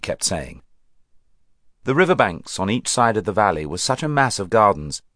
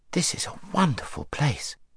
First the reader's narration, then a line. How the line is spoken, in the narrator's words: said Shasta in an awed voice